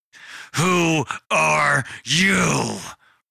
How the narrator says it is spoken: Parker screamed at him

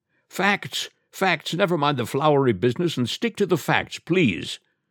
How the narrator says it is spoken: the judge called out

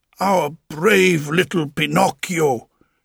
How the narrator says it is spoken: Geppetto cried

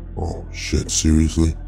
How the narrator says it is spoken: Death muttered to himself

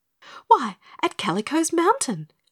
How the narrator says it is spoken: exclaimed Dorothy

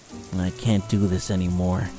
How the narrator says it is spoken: muttered to himself

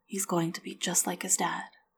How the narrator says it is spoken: she said softly

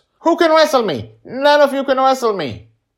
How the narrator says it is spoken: Joy, seemingly high on sugar and attention, shouts

